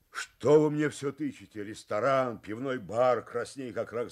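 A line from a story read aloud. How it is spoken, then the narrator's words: Shouted. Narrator (Russian): закричал Виктор Семенович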